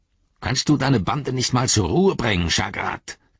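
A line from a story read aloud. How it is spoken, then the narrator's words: Growled. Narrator (German): knurrte der eine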